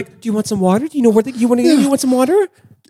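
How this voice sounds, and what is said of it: Condescending baby-talk voice. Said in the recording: “in a condescending voice like we talk to a baby”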